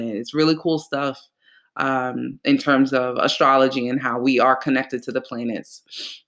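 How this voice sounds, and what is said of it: Congested, slightly cracking voice. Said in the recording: “if my voice cracks, if I sound a little weird, I'm really congested ... So if I sound like a 13-year-old boy going through puberty”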